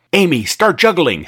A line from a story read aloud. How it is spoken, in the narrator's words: snapped Zack